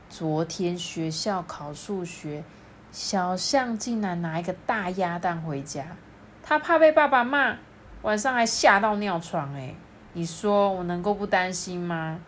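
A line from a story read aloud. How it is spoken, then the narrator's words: Sighing, cautious. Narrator (Chinese): 妈妈叹了一口气，他才说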